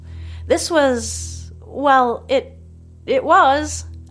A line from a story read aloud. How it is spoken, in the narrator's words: I stammer, smiling